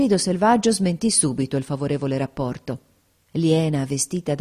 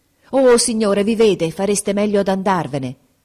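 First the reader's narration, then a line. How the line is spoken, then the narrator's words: Exclaiming. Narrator (Italian): esclamò Grace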